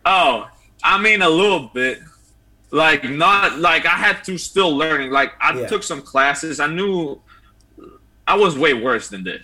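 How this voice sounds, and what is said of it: Slight Italian accent. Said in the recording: “has a little bit of that accent... we used to call you”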